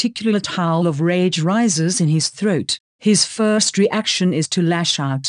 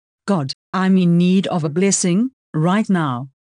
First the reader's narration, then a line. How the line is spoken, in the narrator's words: he says firmly